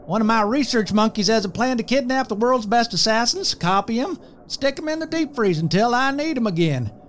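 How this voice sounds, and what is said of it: Southern US accent. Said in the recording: “further south than my accent”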